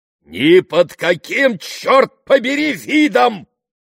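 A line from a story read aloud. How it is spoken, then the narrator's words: Thunderous roar. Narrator (Russian): прогремел лорд Вестерхэм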